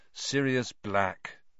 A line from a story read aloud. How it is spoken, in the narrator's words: Harry said wearily